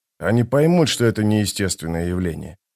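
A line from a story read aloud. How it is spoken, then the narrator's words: Muttering. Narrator (Russian): пробормотал он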